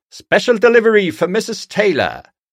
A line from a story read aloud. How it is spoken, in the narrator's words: Postman Pat shouted down